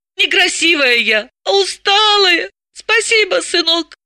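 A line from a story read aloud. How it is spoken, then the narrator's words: Squeaky voice. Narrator (Russian): Пропищала она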